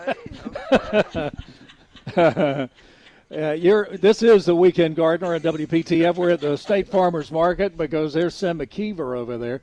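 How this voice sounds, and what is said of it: Strained, fading voice. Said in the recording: “I'm losing my voice. So after 106 newscasts this week.”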